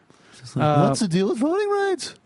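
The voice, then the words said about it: Jerry Seinfeld impression. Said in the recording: “my impression. ... Of Jerry Seinfeld. ... I did a Seinfeld”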